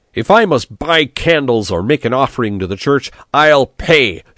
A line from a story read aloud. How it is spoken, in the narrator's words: shouted Biondo